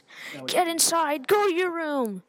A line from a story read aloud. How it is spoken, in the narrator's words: He started yelling at us